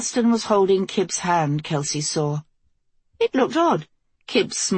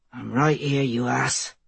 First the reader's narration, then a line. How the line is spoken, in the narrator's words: Elston muttered